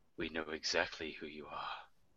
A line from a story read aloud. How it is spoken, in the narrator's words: quietly to his ear and go